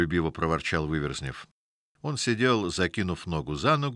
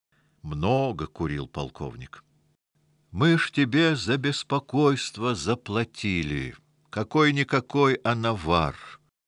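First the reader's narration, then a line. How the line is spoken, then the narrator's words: Plain. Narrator (Russian): сказал полковник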